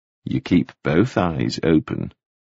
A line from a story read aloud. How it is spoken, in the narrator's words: Pritchard said